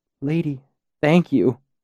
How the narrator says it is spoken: my voice cracked

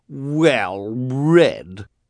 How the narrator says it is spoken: she repeated, in a particularly nasty tone of voice

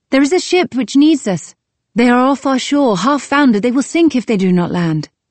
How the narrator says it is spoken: he came shouting

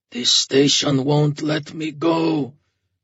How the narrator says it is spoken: said in a hoarse, low voice

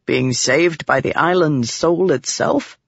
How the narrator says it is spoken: He chuckled

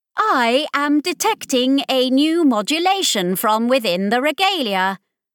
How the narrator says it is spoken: they announced loudly

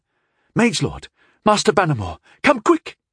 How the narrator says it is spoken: he insisted excitedly

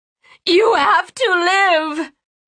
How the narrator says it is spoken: she screamed at him, tears falling from her chin onto his chest

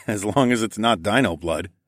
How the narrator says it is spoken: I chuckled

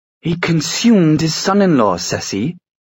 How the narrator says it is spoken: Will snapped

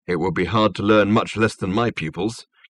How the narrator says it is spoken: came a low growl from somewhere on the table

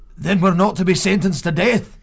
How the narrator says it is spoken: asked anxiously

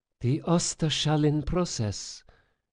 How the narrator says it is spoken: Sophia breathed, betrayed by her own rising excitement

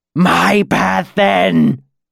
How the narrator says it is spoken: Ancanus shrieked

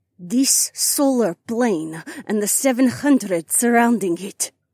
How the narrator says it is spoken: Adhara said, through clenched teeth

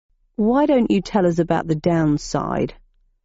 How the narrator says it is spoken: asked Friday in a sullen voice from beneath a curtain of hair

